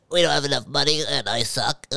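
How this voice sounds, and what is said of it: Imitates another person's voice. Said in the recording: “my impression of their CEO”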